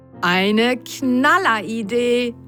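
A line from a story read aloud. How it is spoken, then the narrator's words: Called enthusiastically. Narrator (German): rief Mats begeistert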